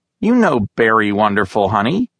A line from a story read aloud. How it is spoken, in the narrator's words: said, smiling sarcastically